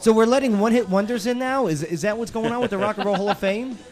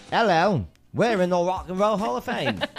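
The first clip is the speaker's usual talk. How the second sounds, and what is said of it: Put-on British accent. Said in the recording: “Another English. ... Are they British? ... That was a spot-on accent. ... Perfect.”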